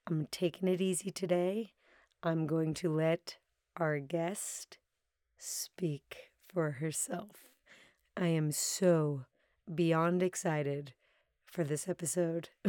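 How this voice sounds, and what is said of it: Strained, worn-out voice. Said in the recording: “it was a big talking weekend. You can probably hear it in my voice. ... I am taking it easy on my voice.”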